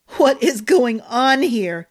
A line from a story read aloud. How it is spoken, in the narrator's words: Maddox said, through snorts of laughter